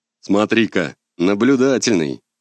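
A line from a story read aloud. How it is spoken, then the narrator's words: Amused grunt, troll. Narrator (Russian): хмыкнул тролль-оружейник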